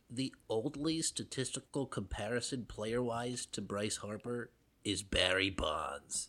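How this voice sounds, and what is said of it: Mock online fan commenter voice. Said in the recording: “in my best Phillies Reddit voice that I can muster here”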